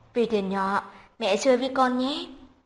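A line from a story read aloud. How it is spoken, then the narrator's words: Gentle smiling mother. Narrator (Vietnamese): Trình Tố Tố dịu dàng cười với cậu bé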